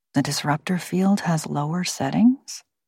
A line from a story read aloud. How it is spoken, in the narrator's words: Jane ask Miro quietly